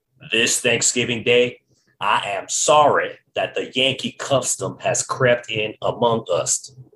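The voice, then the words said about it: Bad put-on Southern US accent. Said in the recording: “That was a really bad Southern accent.”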